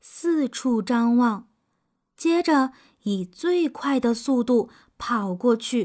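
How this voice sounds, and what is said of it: Usual voice. Nothing is said of it.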